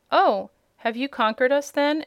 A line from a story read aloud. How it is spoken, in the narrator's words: asked the captain of the guards in a surprised tone